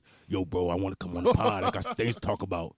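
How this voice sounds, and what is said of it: Imitates another person's voice. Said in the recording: “This is my impression of a JP voice.”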